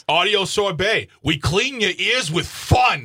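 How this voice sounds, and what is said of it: Mild, hostile New York accent. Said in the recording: “Sounds a little hostile ... is this accent? ... It's just enough to be funny, not enough to be offensive. ... It's like a guy who moved out of New York like 30 years ago. ... And still hostile.”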